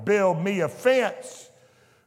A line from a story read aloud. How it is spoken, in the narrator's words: Hell cried